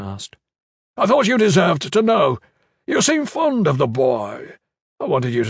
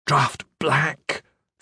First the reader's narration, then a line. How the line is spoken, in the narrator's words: the dead man hissed